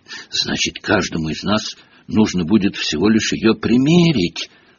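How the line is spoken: Whisper. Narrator (Russian): прошептал Рон

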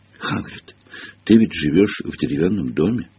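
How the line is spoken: Tragic voice, woman. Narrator (Russian): трагическим голосом произнесла она

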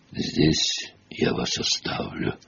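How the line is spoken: Whispering. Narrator (Russian): прошептал Ференс

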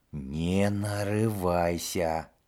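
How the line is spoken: Whisper. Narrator (Russian): прошептал Рон

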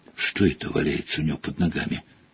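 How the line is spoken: Whisper. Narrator (Russian): прошептала Гермиона

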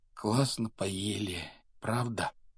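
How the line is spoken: Muffled mumble behind curtains. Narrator (Russian): донеслось до Гарри бормотание Рона, скрытого от него тяжелыми шторами

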